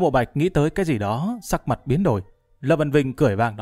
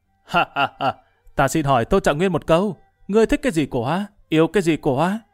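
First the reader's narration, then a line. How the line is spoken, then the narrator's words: Loud laughing voice. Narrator (Vietnamese): chuyển giọng cất tiếng cười lớn nói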